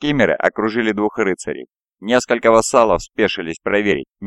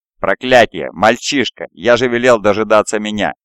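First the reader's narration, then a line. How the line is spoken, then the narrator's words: Father barking. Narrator (Russian): рявкнул его отец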